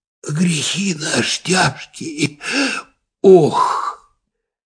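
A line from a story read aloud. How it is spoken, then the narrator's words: Sighing whisper. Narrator (Russian): Опять кто-то вздохнул и даже как будто прошептал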